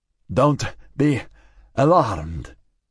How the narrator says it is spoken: Martinez said, wheezing between each word

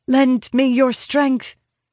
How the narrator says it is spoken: I say urgently in their tongue

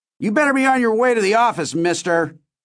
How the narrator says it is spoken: shouted after me

